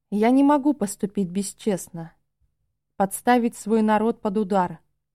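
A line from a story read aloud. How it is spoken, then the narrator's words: Calm reply. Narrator (Russian): спокойно отозвался Ора, хотя я чувствовал отголоски его боли и стыда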